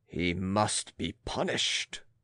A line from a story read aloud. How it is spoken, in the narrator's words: These dread sowers of words added in a deep voice